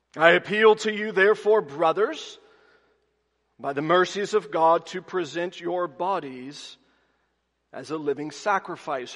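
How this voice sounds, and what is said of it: Slight Southern American accent. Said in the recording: “in a slightly southern accent”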